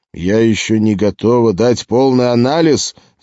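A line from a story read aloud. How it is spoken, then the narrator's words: Yelling. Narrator (Russian): заорал капитан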